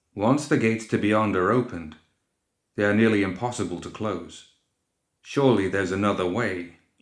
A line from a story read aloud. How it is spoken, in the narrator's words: he answered firmly